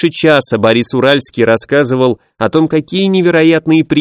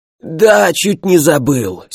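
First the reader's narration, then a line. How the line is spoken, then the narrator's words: Hoarse. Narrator (Russian): сиплым голосом сказал Борис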